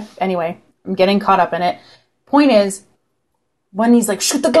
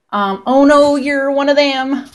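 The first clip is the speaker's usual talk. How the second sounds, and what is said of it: Alan Rickman's bad American accent. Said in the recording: “he does that horrible American accent.”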